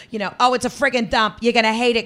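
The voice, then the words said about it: Thick Boston accent. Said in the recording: “has a thick Bostonian accent”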